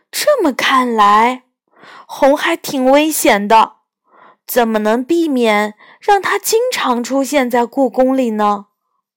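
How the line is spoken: Plain. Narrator (Chinese): 我问

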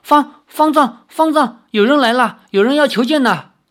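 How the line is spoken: Loud shouting. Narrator (Chinese): 智泽 一面大叫道

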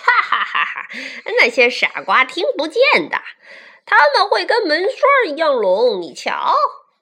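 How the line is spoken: Roaring laughter. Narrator (Chinese): 蜈蚣轰然大笑起来

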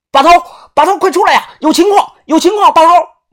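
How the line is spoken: Tense shouting. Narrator (Chinese): 紧张的大喊

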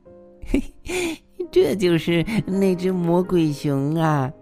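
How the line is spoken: Giggling. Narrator (Chinese): 小熊咯咯的笑了起来

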